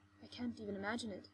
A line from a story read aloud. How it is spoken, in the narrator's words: muttered